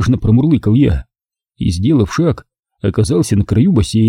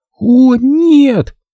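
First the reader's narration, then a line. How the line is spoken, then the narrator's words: Desperate scream. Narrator (Russian): отчаянно закричала Нина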